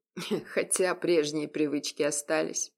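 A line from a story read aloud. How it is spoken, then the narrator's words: Snort. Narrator (Russian): хмыкнул Егор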